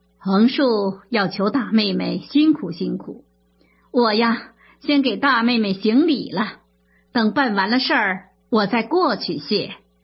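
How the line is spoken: Ingratiating smile. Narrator (Chinese): 贾珍陪笑着说

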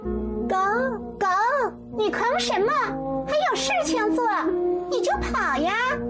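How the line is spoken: Angry shout. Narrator (Chinese): 翠翠用生气的口吻喊着

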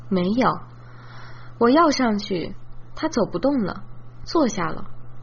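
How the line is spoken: Sighing. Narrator (Chinese): 燕城叹气说

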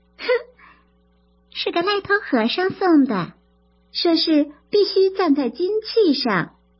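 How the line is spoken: Smiling. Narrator (Chinese): 莺儿笑着说

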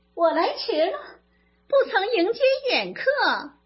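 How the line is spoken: Laughing while speaking. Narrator (Chinese): 有人边笑边说

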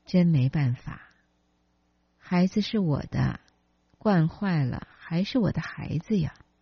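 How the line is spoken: With a long sigh. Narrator (Chinese): 李林长叹一声说

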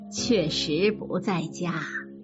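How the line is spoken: Smiling. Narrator (Chinese): 贾母笑着说

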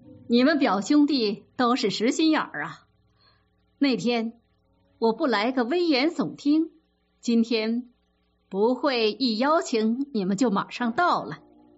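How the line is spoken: Laughing loudly. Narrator (Chinese): 冯子英大笑着说

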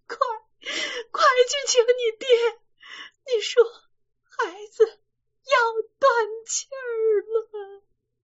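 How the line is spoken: Crying out. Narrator (Chinese): 李瓶儿……哭着叫丫头

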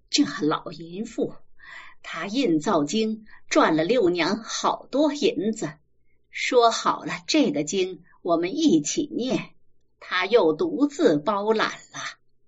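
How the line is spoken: Muttered cursing. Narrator (Chinese): 王姑子口里喃喃地骂着

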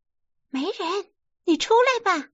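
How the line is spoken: Calling out. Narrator (Chinese): 那金莲叫陈静姐

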